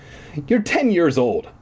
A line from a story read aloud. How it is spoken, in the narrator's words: I said sharply